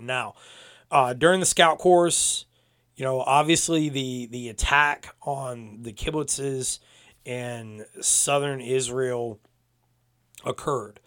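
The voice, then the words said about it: Strained, damaged voice. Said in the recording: “when it hurts me to talk ... my voice is still a little bit shot.”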